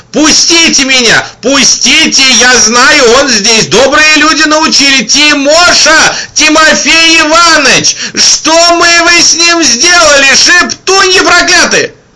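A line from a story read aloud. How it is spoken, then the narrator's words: Ringing young voice yelling. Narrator (Russian): звонкий молодой голос на весь коридор вопил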